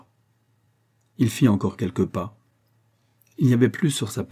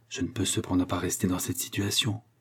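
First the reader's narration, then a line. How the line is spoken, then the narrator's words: Murmured. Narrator (French): murmura-t-il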